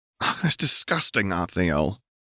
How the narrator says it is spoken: Anna groaned with frustration

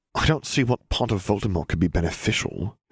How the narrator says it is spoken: Harry muttered

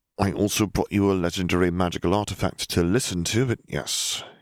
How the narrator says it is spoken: he sighed

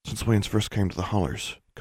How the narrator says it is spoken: Constance murmured

